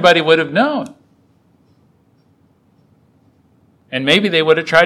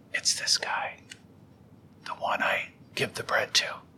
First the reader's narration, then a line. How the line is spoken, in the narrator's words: whispered it to John and said